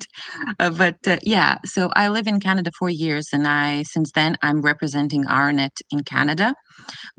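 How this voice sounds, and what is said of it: Foreign accent in English. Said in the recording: “I moved to Canada only 4 years ago. So that's why I have this cute accent.”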